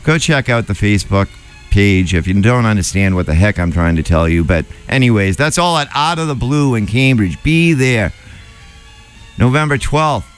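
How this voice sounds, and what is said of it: Noticeable regional accent. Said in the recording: “Don't rank on my accent. I know it's showing through when I'm tired.”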